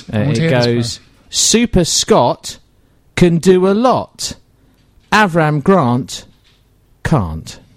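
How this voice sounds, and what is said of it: South African accent. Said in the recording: “in a South African accent there ... Only inadvertently.”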